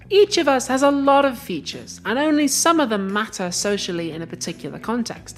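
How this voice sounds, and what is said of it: English with an Icelandic accent. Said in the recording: “I speak English with an Icelandic accent.”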